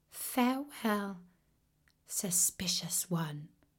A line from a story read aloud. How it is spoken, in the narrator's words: she said sadly